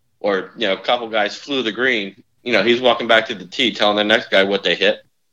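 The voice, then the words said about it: New Jersey accent. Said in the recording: “by your listening to your accent ... northern New Jersey ... that's where I got the accent”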